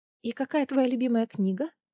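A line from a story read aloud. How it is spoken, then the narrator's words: Whisper. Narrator (Russian): Прошептала Гвин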